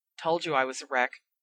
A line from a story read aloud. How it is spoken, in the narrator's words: Ron muttered